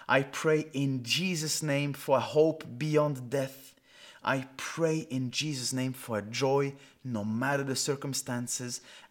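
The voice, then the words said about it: Non-native accented English. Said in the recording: “my weird English accent”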